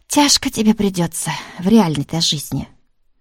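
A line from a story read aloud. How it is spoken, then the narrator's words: Sighing, regretful. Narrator (Russian): Тараканова вздохнула и как-то с сожалением произнесла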